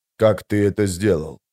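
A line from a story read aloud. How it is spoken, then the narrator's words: Whisper. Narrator (Russian): прошептал быстрый Бен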